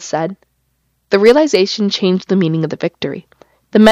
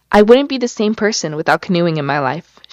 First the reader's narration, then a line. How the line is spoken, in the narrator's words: she said